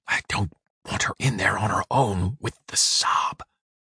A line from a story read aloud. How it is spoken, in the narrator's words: whispered gravely